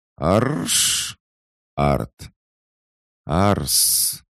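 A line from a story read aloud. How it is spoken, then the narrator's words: Strained hiss, doll. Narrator (Russian): С явным трудом прошипела кукла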